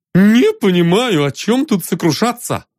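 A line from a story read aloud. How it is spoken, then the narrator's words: Cheerful exclamation. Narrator (Russian): бодро вскрикнул он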